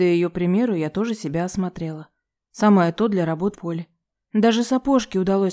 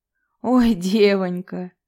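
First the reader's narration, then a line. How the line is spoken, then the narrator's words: Good-natured laugh. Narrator (Russian): без злобы посмеялась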